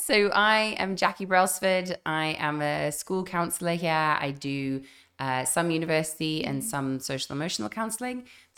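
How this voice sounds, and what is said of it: Slightly croaky voice. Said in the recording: “My voice is a bit croaky.”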